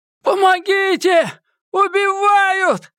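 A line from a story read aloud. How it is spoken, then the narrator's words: Loud scream. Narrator (Russian): громко закричал Эдди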